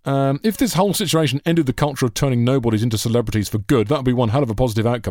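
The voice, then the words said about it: Stupid mocking voice. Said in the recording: “in your stupid mocking voice ... Gave you the voice of an arsehole there”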